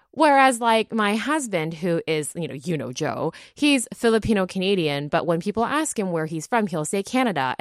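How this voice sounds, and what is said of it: American-sounding North American accent. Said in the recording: “people assume, first of all, that I'm American because of my accent ... I grew up in the States. That's why my accent.”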